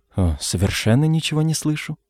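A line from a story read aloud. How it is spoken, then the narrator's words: Mumbling. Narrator (Russian): пробормотал Роберт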